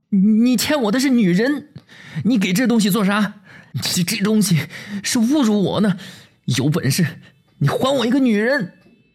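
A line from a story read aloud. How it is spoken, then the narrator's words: Nervous, blustering shout. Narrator (Chinese): 心里发怵，嘴上便是硬中带软，嚷嚷道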